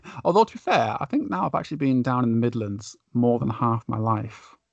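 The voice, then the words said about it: Northern English accent. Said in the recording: “is originally from Lancashire ... Northern boy ... my accent wouldn't say that sometimes ... I may sound northern”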